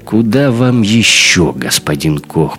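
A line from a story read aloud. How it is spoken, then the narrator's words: Grumbling bartender. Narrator (Russian): пробурчал бармиксер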